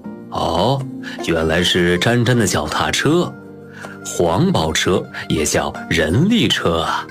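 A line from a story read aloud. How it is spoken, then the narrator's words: Laughing. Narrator (Chinese): 丰子恺笑着说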